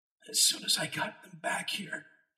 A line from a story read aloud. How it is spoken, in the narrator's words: he said, his voice a hoarse whisper